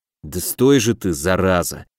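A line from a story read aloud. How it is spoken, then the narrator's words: Muttered. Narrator (Russian): пробормотал я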